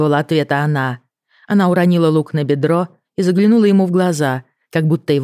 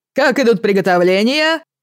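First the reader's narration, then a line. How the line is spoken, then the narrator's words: Shouted. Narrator (Russian): крикнул Кирби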